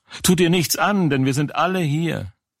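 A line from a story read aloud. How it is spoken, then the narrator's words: Loud call. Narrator (German): Paulus aber rief laut und sprach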